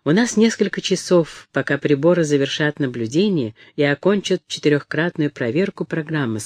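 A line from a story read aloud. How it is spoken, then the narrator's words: Plain. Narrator (Russian): сказал Мут-Анг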